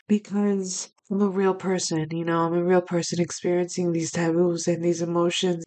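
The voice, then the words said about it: Choked-up emotional voice. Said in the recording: “getting choked up just speaking about it ... hear the sincerity in my voice”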